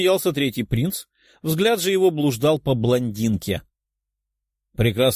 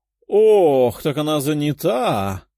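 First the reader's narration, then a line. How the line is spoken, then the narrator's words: Sorrowful sigh. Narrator (Russian): горестно вздохнул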